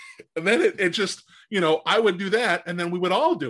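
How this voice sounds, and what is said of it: Usual voice. Nothing is said of it.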